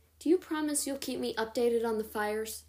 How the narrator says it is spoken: Alden sighed

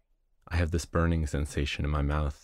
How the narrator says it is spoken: I said

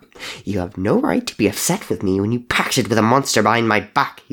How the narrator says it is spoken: he snapped

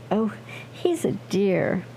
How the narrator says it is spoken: Elise laughed

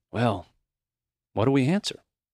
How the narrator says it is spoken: he said softly

